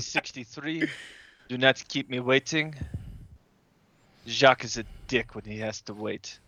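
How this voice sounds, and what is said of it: Put-on character accent. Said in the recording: “do the accent.”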